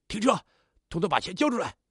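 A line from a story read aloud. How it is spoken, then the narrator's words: Threatening shout. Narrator (Chinese): 高喊道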